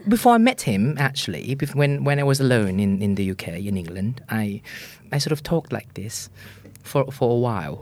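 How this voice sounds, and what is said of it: Put-on slightly posh British accent. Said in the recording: “I wanted to sound British ... sound like, you know, Hermione Granger ... is that like a posh accent? ... a bit posh. It's not extremely posh like ... the royal family”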